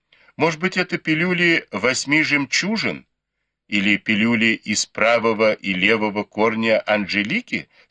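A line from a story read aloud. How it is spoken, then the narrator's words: Plain. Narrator (Russian): спросил Бао Юй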